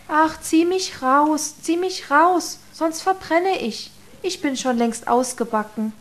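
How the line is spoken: Bread calling out. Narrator (German): Das Brot aber rief

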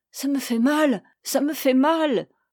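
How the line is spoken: Stammering. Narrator (French): bégaya-t-elle

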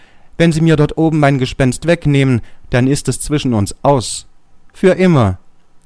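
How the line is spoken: Calling out. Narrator (German): rief ich

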